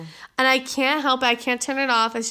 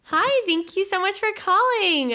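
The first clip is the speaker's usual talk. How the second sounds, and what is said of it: Higher-pitched phone voice. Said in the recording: “phone voice ... It's just a voice that automatically comes on when I answer the damn phone ... it gets more high than if I'm talking like right now ... That's the voice”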